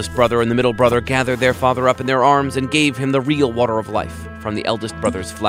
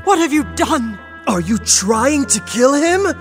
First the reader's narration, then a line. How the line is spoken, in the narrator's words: The eldest brother turned to the youngest brother and cried